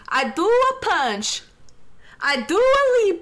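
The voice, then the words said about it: Put-on Italian accent. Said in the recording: “in an Italian accent”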